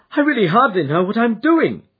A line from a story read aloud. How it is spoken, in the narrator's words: he cried